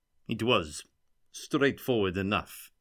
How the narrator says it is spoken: Vukotic replied stiffly

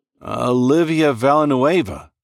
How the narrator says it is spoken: said, my voice trembling

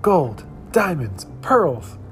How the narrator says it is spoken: cried the frogs

